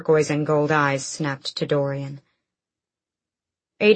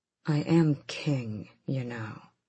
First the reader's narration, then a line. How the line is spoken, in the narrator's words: Dorian said a bit too quietly